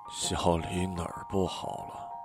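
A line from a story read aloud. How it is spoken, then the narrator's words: Dazed mumbling. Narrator (Chinese): 老郭脸色苍白，呆呆的嘟囔着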